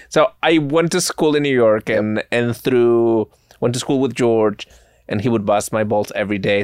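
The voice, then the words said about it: Spanish-accented English. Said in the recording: “Where are you from again? ... Spain. ... I enjoy your accent. ... And your cadence and your dialect.”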